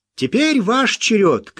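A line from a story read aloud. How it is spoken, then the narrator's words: Shout. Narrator (Russian): крикнул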